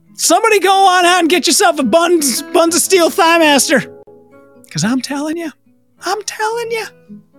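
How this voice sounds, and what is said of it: Southern American accent. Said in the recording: “love the Southern accent.”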